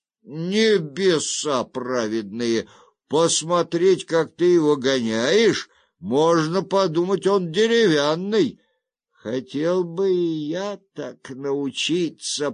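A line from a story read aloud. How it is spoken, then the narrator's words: Drawling. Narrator (Russian): протянул Цзяо Дай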